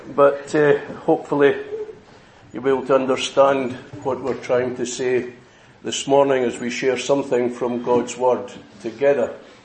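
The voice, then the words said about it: Mild regional accent. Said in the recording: “I'm sure you won't have too much trouble with the accent ... who speak a bit stronger than I do”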